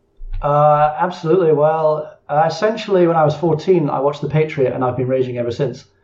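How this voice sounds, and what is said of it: Non-American English accent. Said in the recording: “as the accent might suggest there, you're not American”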